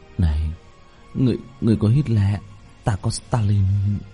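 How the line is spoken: Crowd muttering. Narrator (Vietnamese): Mọi người lẩm bẩm

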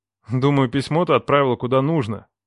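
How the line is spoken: Snort. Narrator (Russian): хмыкнул

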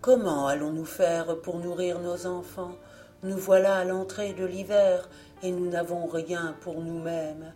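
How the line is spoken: Said with a sigh. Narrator (French): il dit en soupirant à sa femme

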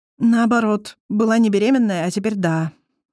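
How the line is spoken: Sighing. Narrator (Russian): вздохнула Алиса

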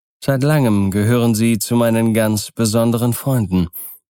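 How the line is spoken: Plain. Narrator (German): sagte er

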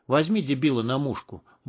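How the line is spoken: Muttered. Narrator (Russian): буркнул Борг снайперу

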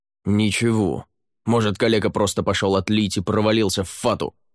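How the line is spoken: Rude male reply. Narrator (Russian): грубо ответил мужчина

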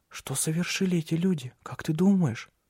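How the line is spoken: Whisper. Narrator (Russian): прошептал Лив

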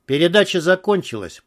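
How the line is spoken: Gloomy summing up. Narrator (Russian): подытожил Алекс мрачно

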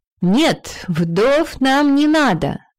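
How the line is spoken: Exclaiming queen. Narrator (Russian): воскликнула дважды вдова королева Хёрдис

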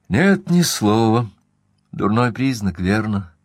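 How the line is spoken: Sighing. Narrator (Russian): вздохнула Эйлин

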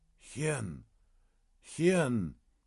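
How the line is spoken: Hoarse wheeze. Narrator (Russian): прохрипел монах

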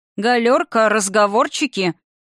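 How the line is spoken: Soldier's booming bark. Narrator (Russian): гаркнул зычным голосом вояка

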